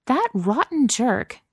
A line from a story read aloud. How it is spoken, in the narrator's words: Chloe exclaimed